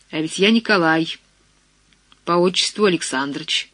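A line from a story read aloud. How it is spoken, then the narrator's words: Mocking, trembling question. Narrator (Russian): Насмешливо, но с дрожью в голосе спросил вошедший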